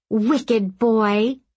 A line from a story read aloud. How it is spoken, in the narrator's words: she cried